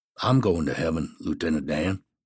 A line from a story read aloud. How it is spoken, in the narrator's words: Forrest quietly says